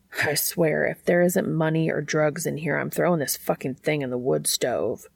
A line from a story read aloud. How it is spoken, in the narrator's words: Dean muttered to himself, almost as if it were a password